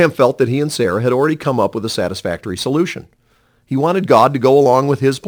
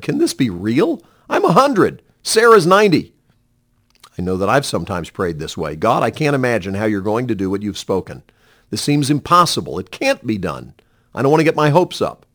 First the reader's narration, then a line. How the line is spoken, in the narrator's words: Abraham fell down laughing and said